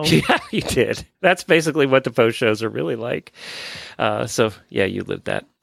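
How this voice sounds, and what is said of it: Failing, worn-out voice. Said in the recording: “my voice is just quitting here ... this medicine will have kicked in and I'll be all better”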